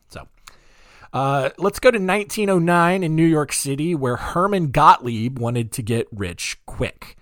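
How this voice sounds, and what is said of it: Deep, dark morning radio voice. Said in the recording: “my voice is a little bit off... I still have like kind of like a dark or a deep morning voice, and it's almost, it feels like a radio voice”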